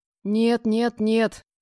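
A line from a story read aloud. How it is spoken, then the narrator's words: Horrified breathless exclamation. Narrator (Russian): выдохнула я с ужасом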